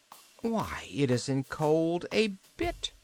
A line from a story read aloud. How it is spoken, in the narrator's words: she exclaimed